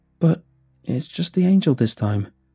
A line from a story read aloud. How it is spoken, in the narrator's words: Hunter said, his voice shaking